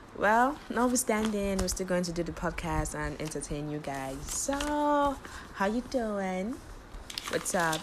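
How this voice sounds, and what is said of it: Strained, worn voice. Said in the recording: “sorry about my voice. It's a bit, ugh, you know, I did a lot of shouting yesterday”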